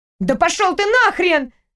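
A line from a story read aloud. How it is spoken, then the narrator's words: Yelling. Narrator (Russian): завопила Маша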